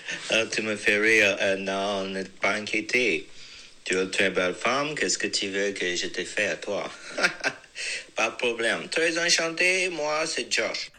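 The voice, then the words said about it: Fluent French with a foreign accent. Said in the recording (French): “le gars parle hyper bien français, mais euh, avec un accent de Shona Sand”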